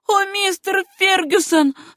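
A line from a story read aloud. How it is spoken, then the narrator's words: Moaning. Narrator (Russian): стонала Сюзанна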